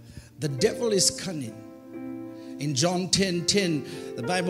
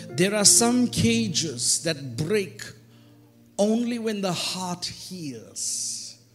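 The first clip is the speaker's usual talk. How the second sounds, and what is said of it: Reads slowly and deliberately. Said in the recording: “I'll read it slowly”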